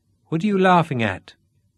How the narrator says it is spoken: asked Dennis

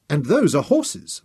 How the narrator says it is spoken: Memnon agreed eagerly

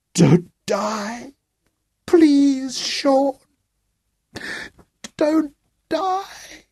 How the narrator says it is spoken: His shoulders shook as he sobbed

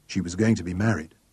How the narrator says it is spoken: said Joe softly

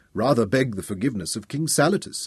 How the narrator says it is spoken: suggested stiffly

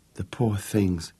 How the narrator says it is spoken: whispered

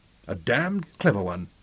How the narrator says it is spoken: Clinton answered him quietly

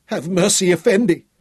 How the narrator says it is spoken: the captain wailed

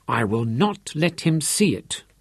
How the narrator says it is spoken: she told herself firmly

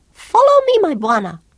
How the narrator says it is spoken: piped in Swahili

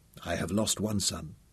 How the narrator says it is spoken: he said softly

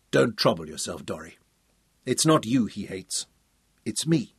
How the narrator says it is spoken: Tom said quietly

